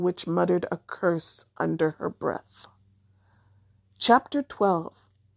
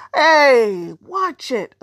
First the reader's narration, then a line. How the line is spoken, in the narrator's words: a smaller boy shouted